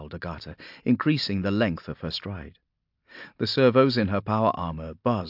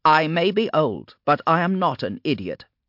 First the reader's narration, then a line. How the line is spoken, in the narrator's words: snapped Agata